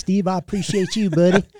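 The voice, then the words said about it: Imitated Tennessee accent. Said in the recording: “He's from Tennessee, talks like this. ... dead on for a Tennessee accent”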